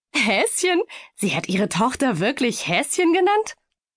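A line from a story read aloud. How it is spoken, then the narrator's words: Loud laughter. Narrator (German): Kerstin lachte laut heraus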